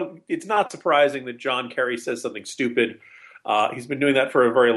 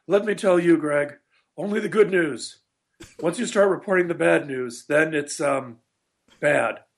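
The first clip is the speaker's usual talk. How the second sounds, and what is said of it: Imitates another person's voice. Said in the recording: “my my John Kerry impression has been on a shelf for a while, so I have to dust it off”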